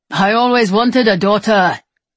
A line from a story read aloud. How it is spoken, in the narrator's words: he yells in her ear